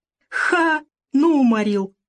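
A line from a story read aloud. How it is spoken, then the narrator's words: Loud merry laughter. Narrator (Russian): Федор так развеселился, что хохотал на всю пещеру, придерживая рукой рану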